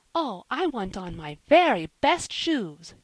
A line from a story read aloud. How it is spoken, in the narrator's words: she cried